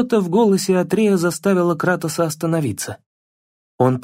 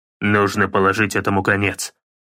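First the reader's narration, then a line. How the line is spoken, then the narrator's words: Grumbling. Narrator (Russian): проворчал Кратос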